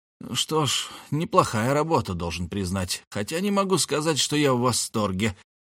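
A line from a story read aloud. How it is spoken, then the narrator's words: Muttered. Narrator (Russian): пробормотал он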